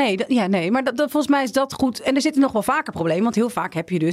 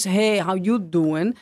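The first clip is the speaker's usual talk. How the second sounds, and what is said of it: Joey Tribbiani Italian-American accent. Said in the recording (Dutch): “Italiaanse eh, mensen die met een Italiaans accent praten. ... Zoals Joey Tribbiani. ... Italiaans-Amerikaans.”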